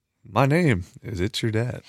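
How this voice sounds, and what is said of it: Polished radio announcer voice. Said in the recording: “significantly better radio voice”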